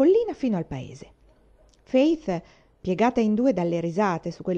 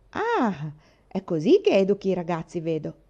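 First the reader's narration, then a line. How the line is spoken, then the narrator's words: Playful tone. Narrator (Italian): disse Gilbert in tono scherzoso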